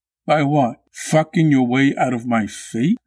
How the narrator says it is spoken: Hans's laughter sounded like a bark

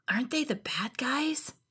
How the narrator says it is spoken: She whispered

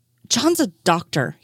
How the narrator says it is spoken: he snapped at Donovan

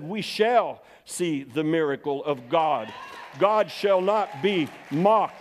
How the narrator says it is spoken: loudly, I rebuked that word in the name of Jesus, and I said

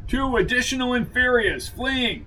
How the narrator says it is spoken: shouted his senior selvet

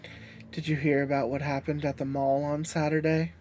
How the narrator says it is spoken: I sigh quietly

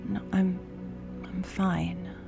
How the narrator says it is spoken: I mutter

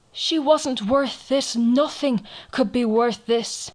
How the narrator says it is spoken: he cried out to the seal

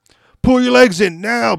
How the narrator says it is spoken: barked Greer

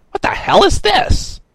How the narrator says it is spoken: Mar shrieked

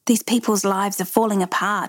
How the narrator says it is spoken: he said

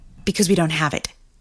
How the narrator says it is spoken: she snapped

